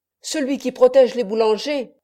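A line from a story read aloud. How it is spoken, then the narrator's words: Loud resonant shout. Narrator (French): criait d'une voix sonore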